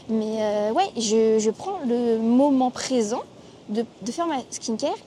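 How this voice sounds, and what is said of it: Noticeable French accent. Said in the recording (French): “mon accent, s'il vous plaît, on ne jugera pas”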